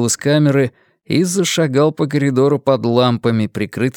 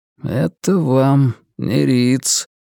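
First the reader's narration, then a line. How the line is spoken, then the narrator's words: Mumbled. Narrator (Russian): пробормотал он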